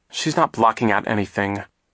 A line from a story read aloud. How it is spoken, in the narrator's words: Klaus said crossly